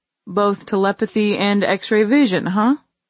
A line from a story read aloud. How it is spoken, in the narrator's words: He chuckled